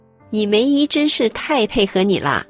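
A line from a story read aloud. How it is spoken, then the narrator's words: Laughing heartily. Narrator (Chinese): 她女儿哈哈大笑，说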